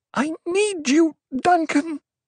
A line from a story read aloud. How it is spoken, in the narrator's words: she sobbed